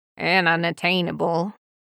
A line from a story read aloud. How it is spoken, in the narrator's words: the second grumbles